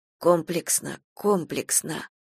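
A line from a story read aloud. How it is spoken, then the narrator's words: Muttered. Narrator (Russian): бормотала Лариса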